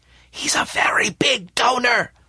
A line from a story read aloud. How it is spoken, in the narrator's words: whispered Smith